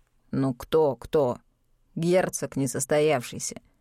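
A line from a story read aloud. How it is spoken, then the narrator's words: Gritted teeth, then exploding. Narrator (Russian): сквозь зубы процедил Клайс, а потом взорвался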